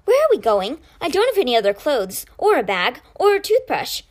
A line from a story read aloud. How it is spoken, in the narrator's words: he asked brightly